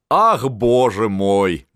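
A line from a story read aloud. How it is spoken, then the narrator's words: Laughing. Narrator (Russian): засмеялся Астерман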